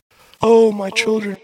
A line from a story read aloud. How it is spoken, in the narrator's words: she'll scream